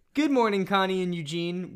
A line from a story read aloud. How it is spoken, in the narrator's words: Wooten exclaimed